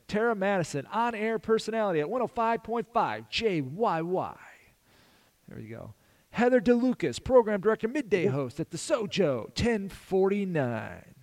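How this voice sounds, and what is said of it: Announcer-style radio voice. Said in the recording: “I'm doing my best radio voice. I'm getting practice doing my doing some radio voice”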